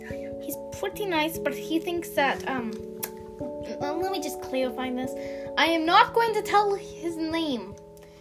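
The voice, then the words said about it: Speaks in a funny accent. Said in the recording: “Why do I have this funny accent?”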